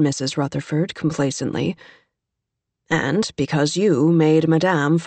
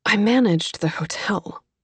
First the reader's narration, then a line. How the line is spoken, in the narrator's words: Kate said, feeling her voice catch